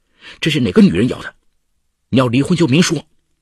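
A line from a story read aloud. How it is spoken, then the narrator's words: Angry. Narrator (Chinese): 她愤怒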